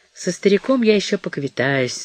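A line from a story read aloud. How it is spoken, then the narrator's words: Gloomy assurance. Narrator (Russian): заверил ее Мэтт мрачно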